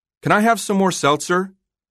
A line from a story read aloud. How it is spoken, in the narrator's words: Sarah yelled from the living room